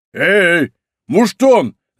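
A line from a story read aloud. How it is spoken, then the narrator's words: Shouting. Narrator (Russian): закричал Портос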